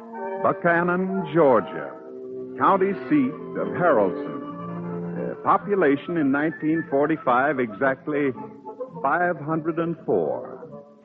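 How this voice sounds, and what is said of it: Southern US accent. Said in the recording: “pardon my southern accent. I'll tell you the story as Dave Eaves.”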